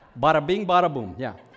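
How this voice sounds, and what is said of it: Exaggerated New York accent. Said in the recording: “I'm a New Yorker. I'm from Long Island. Right now, this is how I normally speak, but I'm changing my accent for you today.”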